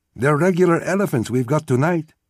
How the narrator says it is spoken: said cheerfully

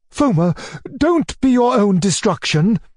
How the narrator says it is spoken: cried my uncle, with clenched fists and flashing eyes

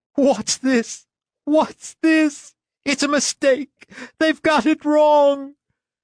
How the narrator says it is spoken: Tears rolled down his cheeks … kept repeating with sobs and gasps

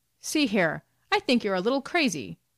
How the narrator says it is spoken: exclaimed Blockman

